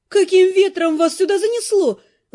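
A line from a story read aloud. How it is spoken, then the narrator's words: Exclaiming. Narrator (Russian): воскликнула она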